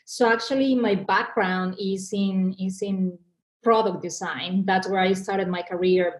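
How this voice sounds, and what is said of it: Mexican accent in English. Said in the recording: “I am an immigrant. Probably the audience already noticed that by my accent. I was born and raised in Mexico”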